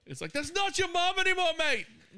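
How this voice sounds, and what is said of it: Put-on British accent. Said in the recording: “It's my British accent. ... It's really good.”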